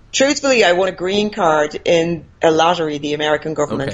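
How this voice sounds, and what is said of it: Faint Irish accent, Americanized. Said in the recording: “that's not a Florida accent, is it? That's an Irish accent. ... That's the remainder of an Irish accent, yeah. I'm very Americanized”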